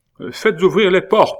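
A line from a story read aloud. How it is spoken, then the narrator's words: Royal cry. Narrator (French): s'écrie le roi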